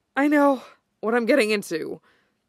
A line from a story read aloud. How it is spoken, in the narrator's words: Kenma pants, shuddering